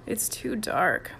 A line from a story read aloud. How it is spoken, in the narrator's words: mumbled Mike